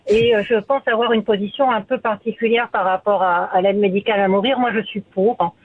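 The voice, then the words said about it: French-from-France accent. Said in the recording (French): “je suis d'origine française, comme ça se reconnaît au niveau de mon accent”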